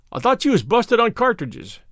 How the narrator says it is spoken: cried

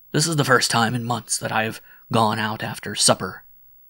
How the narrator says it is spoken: he exclaimed

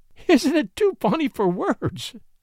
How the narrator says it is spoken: She laughed bravely through her tears

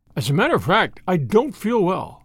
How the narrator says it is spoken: said the Count

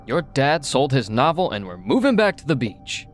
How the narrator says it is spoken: my mom exclaimed

